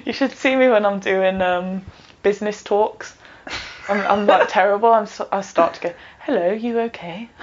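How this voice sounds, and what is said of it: Brummie (Birmingham) English accent. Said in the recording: “I should be proud of my accent ... your accent should be, like, proper out there ... Don't Brummy shame me”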